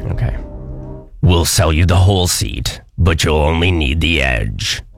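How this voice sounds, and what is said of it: Monster truck announcer voice. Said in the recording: “do your best monster truck announcer voice”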